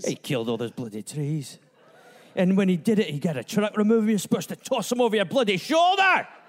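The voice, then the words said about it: Put-on Scottish accent. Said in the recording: “this Scottish reporter ... In my bloody accent.”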